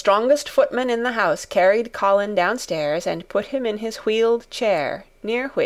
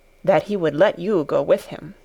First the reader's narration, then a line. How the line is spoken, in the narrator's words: in a very low voice